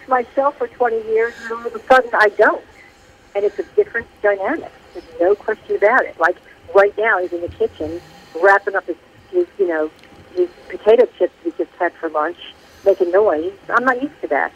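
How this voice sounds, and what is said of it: North Jersey accent. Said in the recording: “I just heard the North Jersey accent there ... I like the Jersey accent.”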